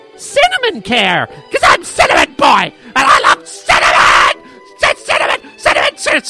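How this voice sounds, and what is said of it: Yelling. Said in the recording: “Stop yelling”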